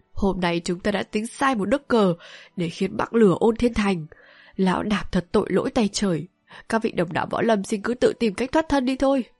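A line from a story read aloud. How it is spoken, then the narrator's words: Deeply sorrowful. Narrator (Vietnamese): với giọng vô vàn xót xa nói tiếp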